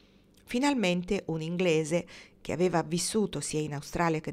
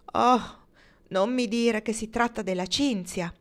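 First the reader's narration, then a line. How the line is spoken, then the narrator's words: Exclaimed. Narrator (Italian): esclamò Kendra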